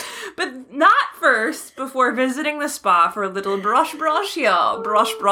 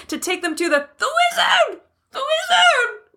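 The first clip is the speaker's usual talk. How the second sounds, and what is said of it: Scrunched, tight, strained character voice. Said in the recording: “What is that voice? ... it's just really scrunched and tight and strained.”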